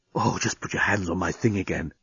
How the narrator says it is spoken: he was whispering in her ear

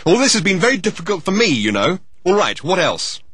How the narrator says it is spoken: he added angrily

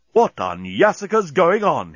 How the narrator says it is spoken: he exclaimed

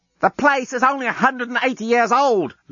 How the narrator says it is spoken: Lucy shouted back down

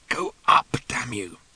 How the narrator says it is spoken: Ford muttered hopelessly

